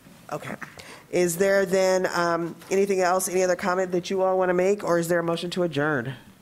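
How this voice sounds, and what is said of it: Rough, unwell-sounding voice. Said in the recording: “I know I sound terrible.”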